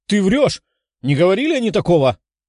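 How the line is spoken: Exclaimed. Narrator (Russian): воскликнула красноволосая

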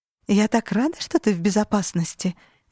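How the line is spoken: Cheerful singsong. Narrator (Russian): весело нараспев добавила я

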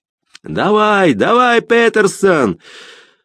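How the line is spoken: Shout. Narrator (Russian): выкрикнул

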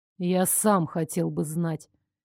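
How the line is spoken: Sad reply. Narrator (Russian): печально отозвался Стефан

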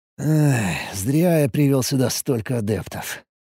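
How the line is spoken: Muttering. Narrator (Russian): пробормотал

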